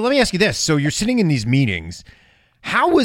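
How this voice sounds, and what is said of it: Usual voice. Nothing is said of it.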